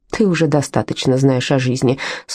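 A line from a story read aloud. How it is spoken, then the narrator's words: Dry retort. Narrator (Russian): сухо парировала Карла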